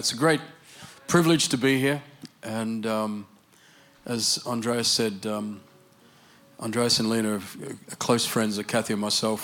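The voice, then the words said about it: Australian English accent. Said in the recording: “My Australian English accent I understand is not that easy to understand”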